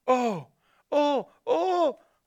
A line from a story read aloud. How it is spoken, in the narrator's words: cried the two little girls